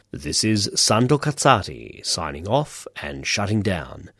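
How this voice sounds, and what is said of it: Put-on radio announcer voice. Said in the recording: “put on my radio voice.”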